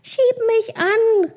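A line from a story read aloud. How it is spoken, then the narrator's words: Calling out. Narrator (German): rief sie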